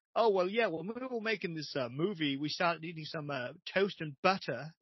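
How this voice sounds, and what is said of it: Accent slipping between English and American. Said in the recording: “he slips between, like, English and American ... somebody who slips into both”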